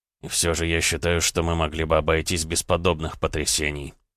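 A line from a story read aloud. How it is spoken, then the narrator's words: Grumbling. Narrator (Russian): проворчал Дмитрий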